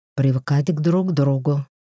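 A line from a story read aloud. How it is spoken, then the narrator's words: Hoarse reply. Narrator (Russian): хрипло ответила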